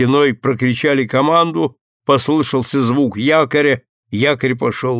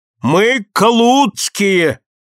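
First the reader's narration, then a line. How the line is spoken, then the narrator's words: Sudden shout. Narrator (Russian): неожиданно закричал Ларсон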